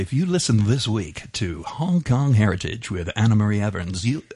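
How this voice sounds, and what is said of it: Attempted Mid-Atlantic DJ accent. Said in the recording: “in a DJ Mid-Atlantic accent? ... I think it's cracked. I don't actually do a North America. I can't do this.”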